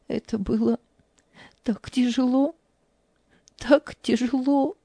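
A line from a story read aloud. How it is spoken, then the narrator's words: Tearful. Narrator (Russian): сквозь слезы произнесла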